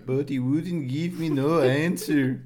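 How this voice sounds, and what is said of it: Put-on Norwegian accent. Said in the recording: “he was Norwegian ... a totally different accent ... Like the guy from Frozen”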